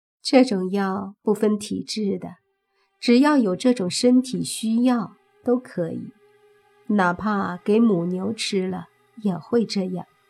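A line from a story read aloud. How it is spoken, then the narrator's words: Woman, with a laugh. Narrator (Chinese): 那女人笑了下，说道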